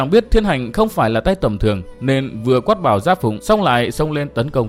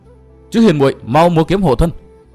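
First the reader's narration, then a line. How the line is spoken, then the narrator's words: Anxious, loud, hurried. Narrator (Vietnamese): lo âu cho người yêu của mình, vội lớn tiếng đáp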